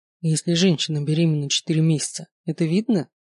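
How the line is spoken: Plain. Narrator (Russian): спросил я Макса

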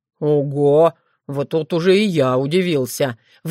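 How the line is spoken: Breathed out. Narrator (Russian): выдохнул Крамиш

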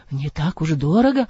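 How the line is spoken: Muttering through blue lips. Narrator (Russian): пробормотал Адам тут с посиневшими губами

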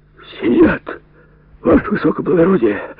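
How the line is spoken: Hoarse wheeze. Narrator (Russian): прохрипел унтер

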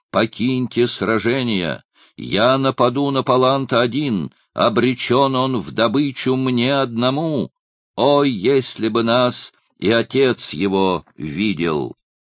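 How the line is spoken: Shouted. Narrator (Russian): закричал

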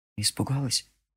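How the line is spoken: Whisper. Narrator (Russian): прошептал Джерри

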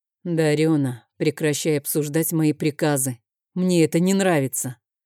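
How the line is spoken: Attempted sternness, came out soft. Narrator (Russian): сказал я как можно строже, но получилось как-то мягко

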